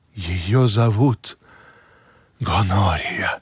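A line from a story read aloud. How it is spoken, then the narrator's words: Reverent whisper. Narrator (Russian): благоговейно прошептал Бинго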